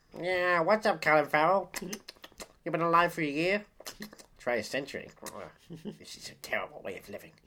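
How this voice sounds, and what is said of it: Daffy Duck cartoon voice impression. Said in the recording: “That's my impression of Daffy Duck.”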